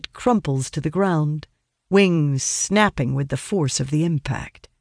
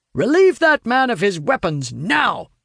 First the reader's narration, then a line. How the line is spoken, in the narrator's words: he shouts